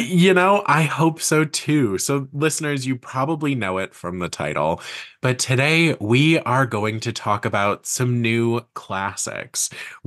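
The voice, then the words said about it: Slightly raspy voice. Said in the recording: “I'm a little under the weather. So my voice has a slight rasp to it”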